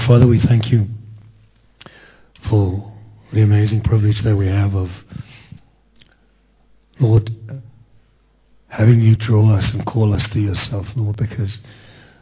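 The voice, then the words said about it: Croaky, deep morning voice. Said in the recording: “it's a fat frog, but we've got him on a diet... when you get up in the morning, you have a sexy voice... I'm not awake yet. I've still got my sexy voice.”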